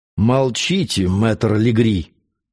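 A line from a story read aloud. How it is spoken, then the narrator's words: Threatening interruption. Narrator (Russian): перебил кавалер угрожающим тоном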